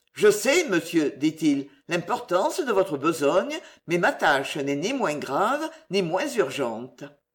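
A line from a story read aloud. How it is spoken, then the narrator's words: Cold, offended. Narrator (French): Offensé, le juge d'instruction froidement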